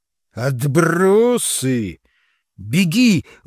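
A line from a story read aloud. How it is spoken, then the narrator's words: Hurried shout. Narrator (Russian): успел крикнуть я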